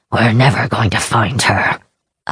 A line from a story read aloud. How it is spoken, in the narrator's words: Akudan muttered